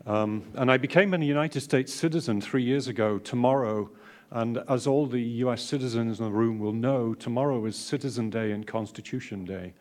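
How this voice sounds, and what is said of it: English accent. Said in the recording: “This is an English accent, not Australian.”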